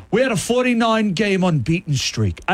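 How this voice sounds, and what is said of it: Put-on Australian accent. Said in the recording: “I don't know why I'm doing Australian accent because he's British.”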